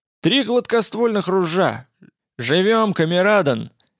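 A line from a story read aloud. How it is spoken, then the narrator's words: Triumphant yell. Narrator (Russian): Победно заорал шкипер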